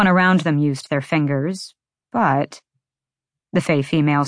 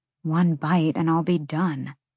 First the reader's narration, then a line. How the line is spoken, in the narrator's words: she muttered